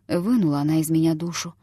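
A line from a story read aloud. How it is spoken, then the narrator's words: Whispered to himself. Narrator (Russian): шептал он самому себе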